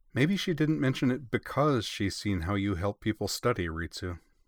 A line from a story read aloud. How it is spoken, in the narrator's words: Mio said